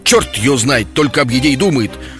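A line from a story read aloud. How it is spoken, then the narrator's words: Contemptuous grumble. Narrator (Russian): проворчал философ, делая презрительную гримасу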